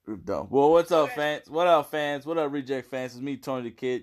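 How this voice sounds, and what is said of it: Hoarse, raspy voice. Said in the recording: “my laryngitis”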